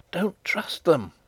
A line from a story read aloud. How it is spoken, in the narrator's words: whispered Antoinette